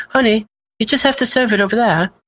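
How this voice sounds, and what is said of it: Poor put-on British accent. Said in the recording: “I'm doing a British accent ... it's not even a good British accent either”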